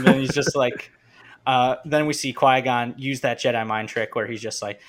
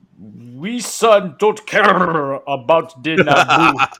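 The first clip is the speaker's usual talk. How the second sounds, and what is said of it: Boss Nass character voice impression. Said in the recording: “my favorite impression to do, which is Boss Nass”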